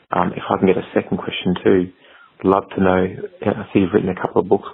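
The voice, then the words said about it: Made-up, barely intelligible English accent. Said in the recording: “What is that accent? What are we talking? Is that English? I could barely figure that out. ... It's a version of English. ... It's like a made-up version of English.”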